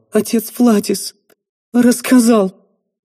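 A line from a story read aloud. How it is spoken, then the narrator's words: Choked, sobbing mumble. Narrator (Russian): Всхлипывая, девушка, заревев еще сильнее, сквозь рыдание сдавленно пробормотала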